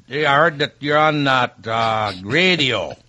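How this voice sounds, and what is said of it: Rural Minnesota accent. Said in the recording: “the ex-urban Minnesota accent ... a whole new way of speaking English up there ... Sounds like he snuck in from Ireland.”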